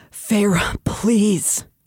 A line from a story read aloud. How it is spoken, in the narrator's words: he breathed